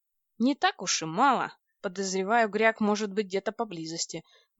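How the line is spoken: Gloomy. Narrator (Russian): мрачно произнес Владлен

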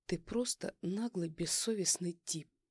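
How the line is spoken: Through gritted teeth, strained dignity. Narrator (Russian): процедила я, пытаясь сохранить остатки достоинства

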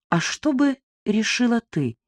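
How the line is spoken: Soft question. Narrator (Russian): спросил мягко

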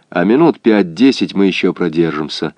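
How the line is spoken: Calm report. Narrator (Russian): спокойно доложил он Каковцеву

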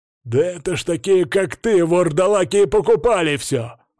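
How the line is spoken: Growling man. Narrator (Russian): зарычал мужичок

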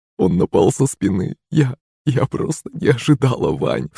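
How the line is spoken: Sobbing. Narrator (Russian): всхлипывала маман

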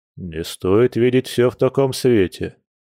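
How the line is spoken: Gloomy. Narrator (Russian): мрачно ответил Борис

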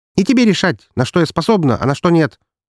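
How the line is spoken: Angry bark. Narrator (Russian): зло рявкнула

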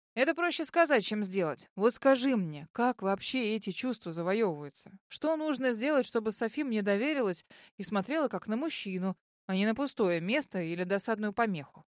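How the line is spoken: Heavy sigh. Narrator (Russian): Тяжело вздохнул Леон

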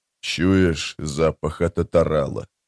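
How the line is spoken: Muttering. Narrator (Russian): пробормотал Боден

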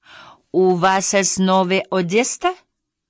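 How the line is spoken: Plain question. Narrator (Russian): спросил он

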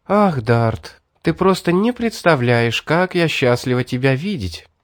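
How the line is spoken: Joyful, young woman. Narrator (Russian): радостно сказала девушка

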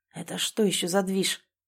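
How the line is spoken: Hoarse, strained evenness. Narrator (Russian): Хриплю как можно более ровно, но скрыть истинные эмоции получается вообще так себе

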